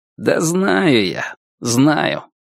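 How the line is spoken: Sighing. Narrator (Russian): Звон вздохнул и сказал

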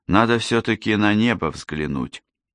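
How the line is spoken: Sigh, then resolute declaration. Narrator (Russian): вздохнул и решительно заявил

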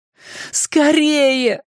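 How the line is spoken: Pleading. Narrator (Russian): взмолился Дориан

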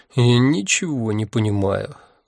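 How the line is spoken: Weary sigh. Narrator (Russian): устало вздохнул я

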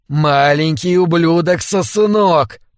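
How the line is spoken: Furious hiss. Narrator (Russian): прошипел он с дикими от злобы глазами

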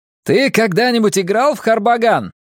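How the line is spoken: Shout while galloping. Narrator (Russian): крикнул Бенкей, когда мы мчались бок о бок

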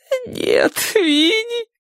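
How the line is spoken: Sobbing. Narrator (Russian): всхлипывала она

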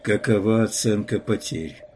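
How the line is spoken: Tired question. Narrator (Russian): устало спросил он

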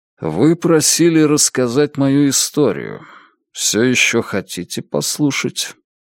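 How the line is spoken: Flat impassive tone. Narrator (Russian): Он говорит бесстрастным тоном

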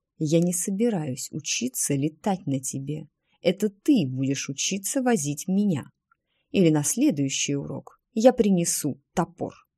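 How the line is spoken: Quiet. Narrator (Russian): Тиффани тихо сказала

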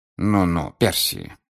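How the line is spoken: Relieved sigh, interjecting. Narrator (Russian): вмешался Люда Бегман, облегченно вздохнув

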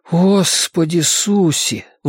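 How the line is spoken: Breathless exhale. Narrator (Russian): выдохнул Бен

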